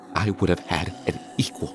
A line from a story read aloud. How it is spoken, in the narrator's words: she said softly, on the verge of tears